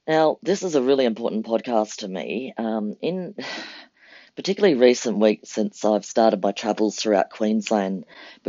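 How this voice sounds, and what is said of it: Congested, head-cold voice. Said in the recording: “forgive my voice. ... just developed a bit of a head cold”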